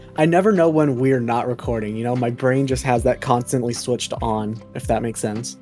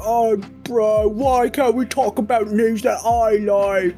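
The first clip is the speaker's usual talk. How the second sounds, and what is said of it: Imitates another person's voice. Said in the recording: “That's my impersonation of Baz.”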